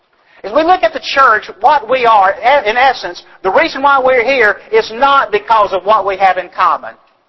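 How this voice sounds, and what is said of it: Southern American accent. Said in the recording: “You guys got my accent, don't you, right? ... that southern accent”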